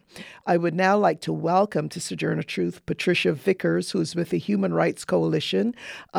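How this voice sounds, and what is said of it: Voice sounds unwell, still sick. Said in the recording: “my time of being ill ... As you could hear from my voice, I'm still not entirely well”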